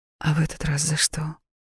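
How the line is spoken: Gentle question. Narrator (Russian): ласково спросила я

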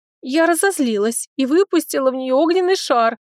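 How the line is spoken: Excited exclamation. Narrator (Russian): воскликнула девушка

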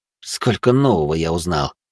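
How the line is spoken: Wry snort. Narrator (Russian): хмыкнул я

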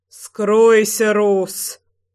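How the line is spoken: Loud growl. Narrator (Russian): прорычал Львовский, ором

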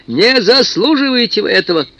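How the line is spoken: Nervous shout. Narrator (Russian): Андрей Тимофеевич разнервничался, крикнул

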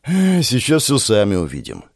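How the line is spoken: Heavy foreboding sigh. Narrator (Russian): тяжело вздохнул я, предчувствуя, что ничего хорошего нас впереди не ждет

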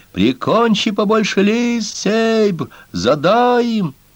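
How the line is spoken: Furious group yelling. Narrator (Russian): Некоторые из них яростно вопили

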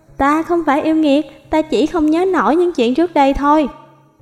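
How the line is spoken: Feigned fearful. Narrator (Vietnamese): cô giả vờ sợ hãi

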